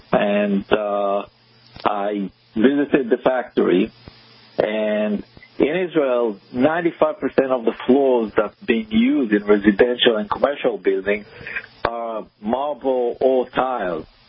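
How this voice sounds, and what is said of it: Israeli accent. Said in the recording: “I'm originally from Israel, and you probably can hear it on my accent.”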